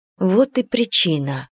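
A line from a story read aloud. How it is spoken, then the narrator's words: Sighing. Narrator (Russian): Эмия вздохнула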